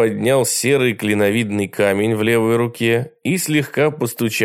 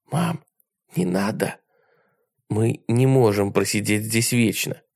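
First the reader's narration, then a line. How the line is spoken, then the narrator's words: Quiet reply. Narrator (Russian): тихо ответила она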